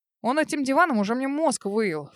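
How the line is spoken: Snort. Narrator (Russian): фыркнул Олег Викторович

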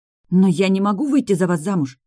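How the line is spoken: Horrified exclamation. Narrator (Russian): в ужасе воскликнула я

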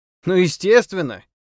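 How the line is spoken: Loud relieved exhale. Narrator (Russian): громко с расслаблением выдохнул

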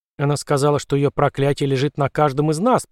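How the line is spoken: Muttering. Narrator (Russian): пробормотала Джули

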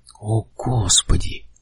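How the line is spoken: Soft young man's voice. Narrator (Russian): мягко сказал юноша

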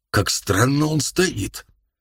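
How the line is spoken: Strange altered voice. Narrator (Russian): Пейн, изменившийся в лице, каким-то не своим голосом сказал

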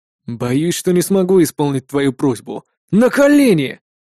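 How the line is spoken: Growl. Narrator (Russian): прорычал я

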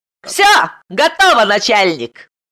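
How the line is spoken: Cheerful shout. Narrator (Russian): весело крикнул Арм

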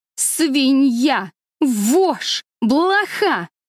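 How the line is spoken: Screaming. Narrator (Russian): вопила

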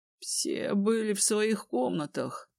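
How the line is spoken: Muttered. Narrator (Russian): пробормотал Рейн

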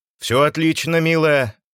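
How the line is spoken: Loud. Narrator (Russian): громко сказал Кольцов

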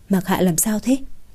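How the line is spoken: Quiet question. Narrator (Vietnamese): Thẩm Lệ nhỏ giọng hỏi Hạ Diệp Chi

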